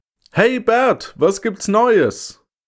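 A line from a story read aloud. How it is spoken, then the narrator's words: Calling from above. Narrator (German): Er rief von oben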